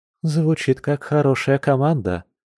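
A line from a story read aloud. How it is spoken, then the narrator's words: Soft comment. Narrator (Russian): мягко прокомментировала Маша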